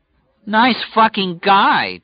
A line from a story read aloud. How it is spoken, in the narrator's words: Julie cried, her voice rising shrewishly